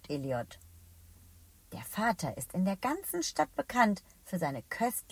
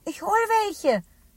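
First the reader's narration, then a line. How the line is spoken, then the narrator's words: Calling out. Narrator (German): ruft Eliot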